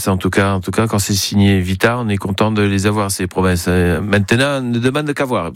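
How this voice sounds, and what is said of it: Put-on southern French accent. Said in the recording (French): “Pourquoi je prends l'accent du midi, moi?”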